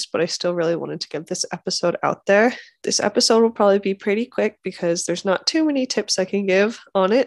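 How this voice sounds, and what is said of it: Congested, stuffy-nosed voice. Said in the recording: “If you couldn't tell from my voice, I'm getting over some sort of sickness ... I still have a runny nose and a little bit of congestion, so you might be able to tell from my voice”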